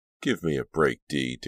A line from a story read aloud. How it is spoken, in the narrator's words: Danielle snapped